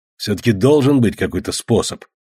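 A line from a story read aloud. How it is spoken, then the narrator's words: Grumbled. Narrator (Russian): буркнул Ворон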